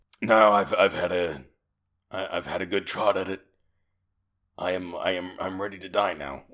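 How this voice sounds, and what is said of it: Very deep character voice. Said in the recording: “he's got a very deep voice”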